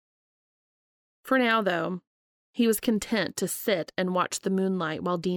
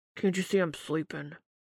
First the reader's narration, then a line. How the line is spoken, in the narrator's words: Dean grumbled without raising his face from the pillow